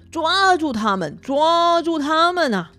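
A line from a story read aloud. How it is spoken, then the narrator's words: Loud shouting. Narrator (Chinese): 那三个妖精大叫着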